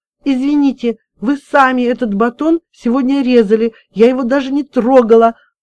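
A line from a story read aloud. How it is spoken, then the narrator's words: Sobbing. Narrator (Russian): Разрыдалась Маша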